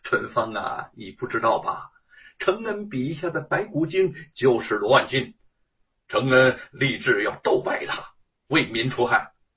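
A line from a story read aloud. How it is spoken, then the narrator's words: Laughing. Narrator (Chinese): 沈坤在一边笑着说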